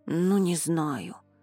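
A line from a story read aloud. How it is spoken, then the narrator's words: Grumbled. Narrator (Russian): проворчал Рони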